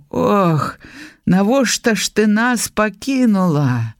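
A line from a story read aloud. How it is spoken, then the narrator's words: Moaning, weeping old father. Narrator (Belarusian): Стогнал, плакал, помирал батька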